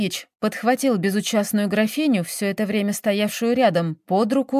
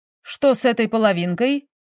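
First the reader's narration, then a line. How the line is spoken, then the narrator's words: Stern question. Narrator (Russian): спросил Наполеонов строго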